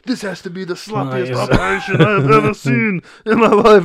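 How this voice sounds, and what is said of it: Imitates another person's voice. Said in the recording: “That was my Arnold impersonation ... It was so good.”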